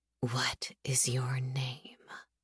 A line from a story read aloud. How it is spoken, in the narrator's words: The whisper is there in my ear